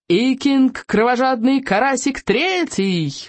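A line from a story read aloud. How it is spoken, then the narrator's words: Shouted. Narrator (Russian): выкрикнул Элвин Вероломный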